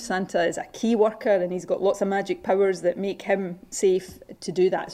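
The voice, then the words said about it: Scottish accent. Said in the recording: “I love the Scottish accent.”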